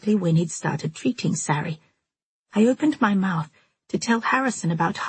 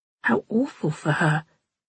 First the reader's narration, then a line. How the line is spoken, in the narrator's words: I murmured